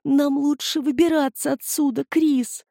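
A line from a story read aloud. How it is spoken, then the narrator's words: Pleading. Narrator (Russian): взмолился Полли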